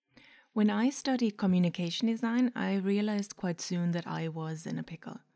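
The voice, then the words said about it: Mixed German and Irish accent. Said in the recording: “that weird accent is, it's a mix of German, Irish, and whoever I listen to on a daily basis”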